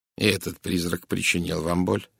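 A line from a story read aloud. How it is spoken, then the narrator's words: Gently asked. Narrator (Russian): мягко спросил Пуаро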